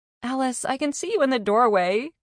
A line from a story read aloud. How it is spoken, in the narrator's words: Carney laughed